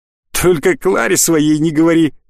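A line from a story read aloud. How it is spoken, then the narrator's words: Chuckling. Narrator (Russian): хохотнул другой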